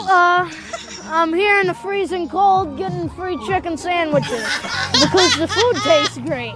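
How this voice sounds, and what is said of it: Upstate New York accent, nerdy-sounding. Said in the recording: “You had such an upstate voice back then. ... He sounds like me when I'm trying to do like my nerd voice.”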